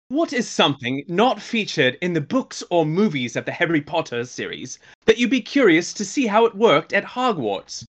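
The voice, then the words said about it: Put-on British accent. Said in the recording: “requested that I do this in a British accent ... did the accent was the, is it too distracting?”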